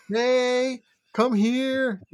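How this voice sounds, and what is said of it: Baby voice. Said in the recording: “I do my baby voices. I do a baby voice with my puppies ... I do my baby voice.”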